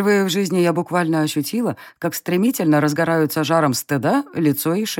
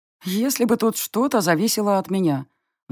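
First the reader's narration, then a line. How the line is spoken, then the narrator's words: Sad sigh. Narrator (Russian): вздохнула я грустно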